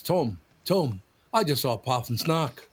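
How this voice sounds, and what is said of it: Imitates another person's accent. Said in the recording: “That accent is perfect.”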